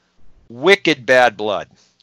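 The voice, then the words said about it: Put-on Boston accent. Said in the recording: “use my old Boston accent”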